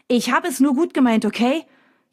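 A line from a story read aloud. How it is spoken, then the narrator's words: Angry shouting. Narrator (German): Jetzt schreit er mich an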